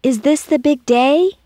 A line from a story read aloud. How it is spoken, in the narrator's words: called out